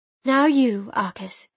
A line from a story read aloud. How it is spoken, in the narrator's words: she said calmly